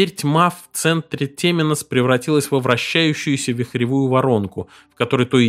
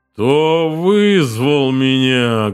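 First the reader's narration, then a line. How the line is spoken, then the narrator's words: Menacing creature's question. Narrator (Russian): грозно спросило темное существо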